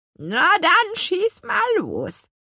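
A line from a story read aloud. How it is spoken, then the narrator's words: Croaking grandmother. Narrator (German): krächzte ihre Großmutter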